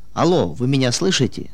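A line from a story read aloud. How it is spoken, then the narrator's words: Plain question. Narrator (Russian): спросил я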